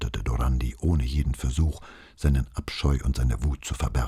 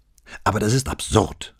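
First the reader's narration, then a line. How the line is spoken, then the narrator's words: Raised voice. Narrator (German): sagte Dorandi mit erhobener Stimme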